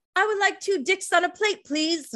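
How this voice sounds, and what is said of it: Put-on accent. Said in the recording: “I don't know what accent that was, and I apologize if anyone's offended.”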